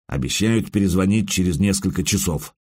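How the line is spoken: Gloomy. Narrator (Russian): мрачно сказал бедренец

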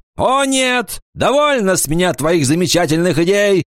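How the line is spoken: Shouting. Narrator (Russian): закричал он

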